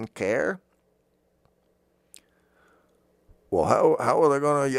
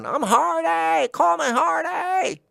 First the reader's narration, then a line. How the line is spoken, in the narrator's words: screaming